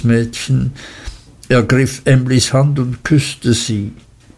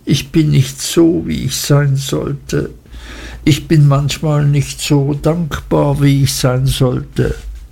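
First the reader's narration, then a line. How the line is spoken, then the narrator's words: Crying out, sobbing bitterly. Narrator (German): rief sie immer noch bitterlich schluchzend aus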